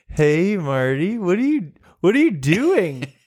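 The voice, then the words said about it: Tipsy-sounding woman's voice. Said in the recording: “she clearly sounds a bit tipsy”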